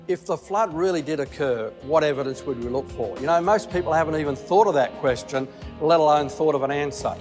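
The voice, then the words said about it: Australian accent. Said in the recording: “He's got an Australian accent”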